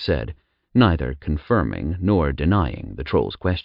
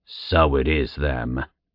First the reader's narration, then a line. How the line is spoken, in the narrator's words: the troll growled